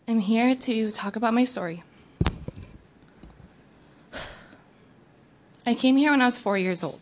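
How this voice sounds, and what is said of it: Emotional, halting voice. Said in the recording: “I might be a little emotional.”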